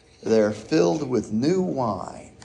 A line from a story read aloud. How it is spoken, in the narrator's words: others sneered and said